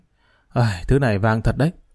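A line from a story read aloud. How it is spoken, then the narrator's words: Frightened voice. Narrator (Vietnamese): Hắn sợ hãi nói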